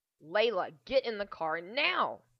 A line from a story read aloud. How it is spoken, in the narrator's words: Jacques snarled